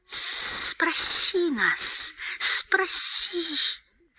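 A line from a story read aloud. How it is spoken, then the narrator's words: Hissing. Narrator (Russian): шипел Голлум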